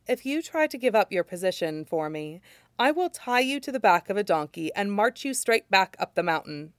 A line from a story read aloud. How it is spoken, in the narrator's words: says sweetly